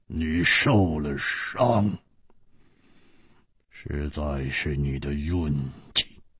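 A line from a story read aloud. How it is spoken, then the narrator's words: Cold after long silence. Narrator (Chinese): 薛衣人沉默了很久，然后冷冷地说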